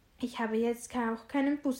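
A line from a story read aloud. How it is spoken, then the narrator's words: Plain. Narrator (German): sagte sie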